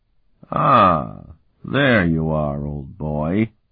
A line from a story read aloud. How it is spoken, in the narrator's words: Sparhawk drawled to Martell, deliberately imitating the white-haired renegade's nonchalance